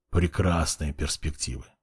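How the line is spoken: Young man's displeased grumble. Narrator (Russian): недовольно буркнул парень

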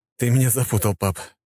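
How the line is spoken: Sighing. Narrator (Russian): вздохнул великий князь

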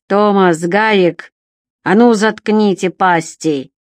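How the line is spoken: Growled by old man. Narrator (Russian): рыкнул старик

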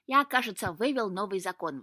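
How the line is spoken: Exclaiming cat. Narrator (Russian): воскликнул кот

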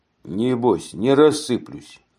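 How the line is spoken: Plain. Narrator (Russian): ответил неизвестный

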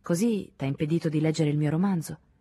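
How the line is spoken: Neutral voice. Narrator (Italian): disse Henri con voce neutra

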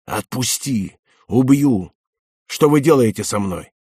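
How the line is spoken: Furious choked rasp. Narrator (Russian): Когда стали душить женщину, она яростно прохрипела

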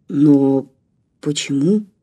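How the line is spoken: Uncertain question. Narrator (Russian): неуверенно спросил профессор

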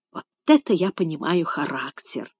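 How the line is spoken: Muttering. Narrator (Russian): пробормотал Финас

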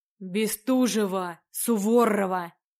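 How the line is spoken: Growl close to ear. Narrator (Russian): рыкнул знакомый голос над ухом

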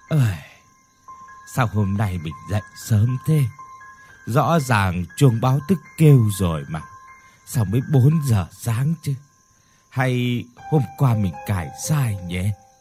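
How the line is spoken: Tongue-clicking sigh. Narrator (Vietnamese): Bà Hoài tặc lưỡi thở dài

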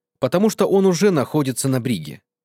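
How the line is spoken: Calm reply. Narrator (Russian): спокойно ответил доктор

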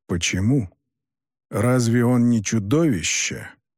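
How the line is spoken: Much more serious reply. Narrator (Russian): Куда более серьезным тоном отозвался Юкай

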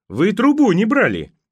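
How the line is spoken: Shouting. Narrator (Russian): прокричала Покровская

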